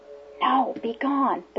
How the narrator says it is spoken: the prompter whispered from the wings

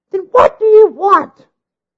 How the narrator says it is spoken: screeched again, her nerves afrazzle

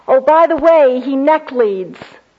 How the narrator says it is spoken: Elaine yelled after me

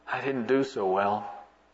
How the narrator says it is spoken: he sadly said

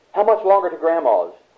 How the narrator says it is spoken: a little girl asked anxiously

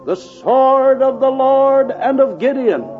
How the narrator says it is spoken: they all shouted

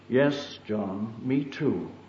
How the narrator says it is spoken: she gently replied

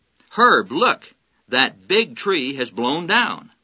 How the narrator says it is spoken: his wife exclaimed

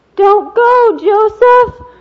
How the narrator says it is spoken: Wally cried

